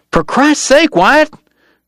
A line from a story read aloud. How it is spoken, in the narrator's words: Dog cried